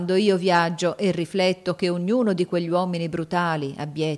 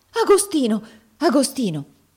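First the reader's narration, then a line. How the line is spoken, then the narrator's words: Exclaimed. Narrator (Italian): esclamò Miss Ophelia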